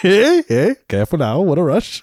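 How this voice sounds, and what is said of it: Put-on Minnesotan accent. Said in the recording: “This is a Minnesotan accent, eh? ... Hey, that was a pretty good continue? Minnesotan accent.”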